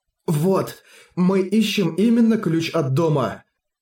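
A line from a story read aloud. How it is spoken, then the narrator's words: Exclaiming. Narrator (Russian): Харуюки воскликнул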